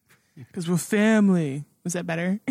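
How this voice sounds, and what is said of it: Imitates another person's voice. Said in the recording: “my Vin Diesel impression ... Uncanny.”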